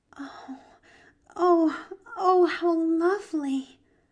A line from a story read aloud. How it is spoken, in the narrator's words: breathed Pollyanna